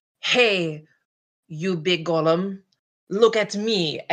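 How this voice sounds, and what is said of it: Game character voice. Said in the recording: “in my Garian voice”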